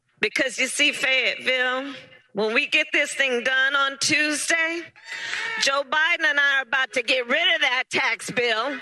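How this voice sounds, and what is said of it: Fake Southern accent. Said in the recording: “the worst fake Southern accent I've ever seen ... the fake accents”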